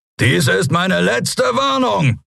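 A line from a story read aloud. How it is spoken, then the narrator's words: Roaring. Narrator (German): brüllte er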